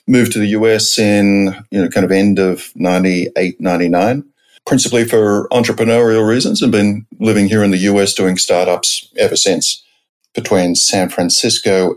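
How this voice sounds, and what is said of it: Australian accent. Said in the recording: “The accent's probably a bit of a giveaway. I grew up in Australia, principally in Sydney”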